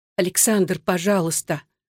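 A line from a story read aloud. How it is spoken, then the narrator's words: Whisper. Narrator (Russian): шептала Татьяна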